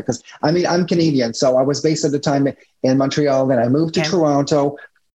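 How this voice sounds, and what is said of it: French-Canadian accent in English. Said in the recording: “English is not my first language, you know, my accent here and there, French is my first language”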